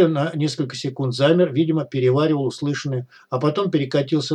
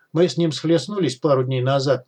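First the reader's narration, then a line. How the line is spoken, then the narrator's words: Gloomy. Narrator (Russian): мрачно произнес Смычок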